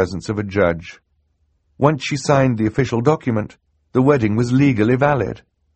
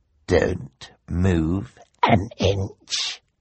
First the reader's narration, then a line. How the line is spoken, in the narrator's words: the bald man muttered to Klaus